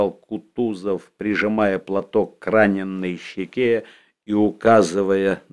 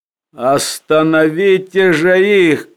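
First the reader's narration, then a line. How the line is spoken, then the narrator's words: Shouting. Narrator (Russian): крикнул он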